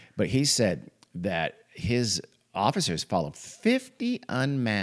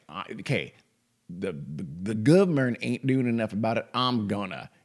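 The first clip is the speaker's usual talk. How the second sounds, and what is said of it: Put-on stereotypical Southern accent. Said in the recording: “I gave him a southern accent. That was stereotypical of me.”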